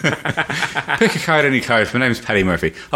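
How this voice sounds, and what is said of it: Put-on Irish accent. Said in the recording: “I can do Irish ... I'll probably do the rest of the podcast in an Irish accent”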